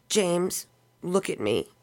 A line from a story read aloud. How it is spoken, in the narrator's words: her voice shook